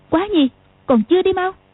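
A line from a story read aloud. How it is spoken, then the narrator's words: Sharp shout. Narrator (Vietnamese): Tiểu Long Nữ quát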